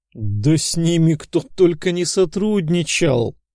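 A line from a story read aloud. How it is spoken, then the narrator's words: Laughing loudly. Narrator (Russian): расхохотался Петр Алексеевич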